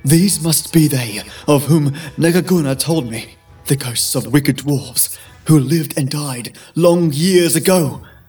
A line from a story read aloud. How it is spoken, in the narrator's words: gasped for breath, muttering to himself